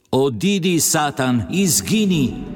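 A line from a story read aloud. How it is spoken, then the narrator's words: Wild alarmed shout. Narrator (Slovenian): zavpila široko odprtih oči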